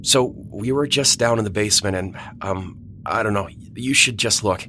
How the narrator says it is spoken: Steven stammered out

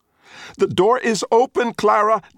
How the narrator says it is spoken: Dot screams

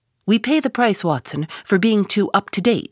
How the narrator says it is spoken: he cried

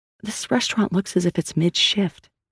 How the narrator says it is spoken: Sal whispered to Asante

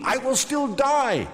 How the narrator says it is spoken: Gilgamesh cried

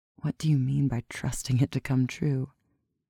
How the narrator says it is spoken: she asked, hardly above a whisper

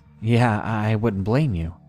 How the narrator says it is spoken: I nervously chuckled and just replied with

